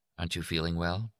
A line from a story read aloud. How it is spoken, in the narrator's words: She said softly in Jack's ear